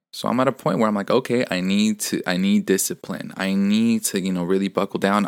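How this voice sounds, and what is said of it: Slightly strained voice. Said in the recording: “I'm feeling a little under the weather. My voice is a bit strained, so in case you hear that difference in my voice”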